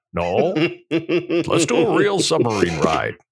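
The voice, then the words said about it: Imitates another person's voice. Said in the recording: “Let me see if I can do a Walt voice.”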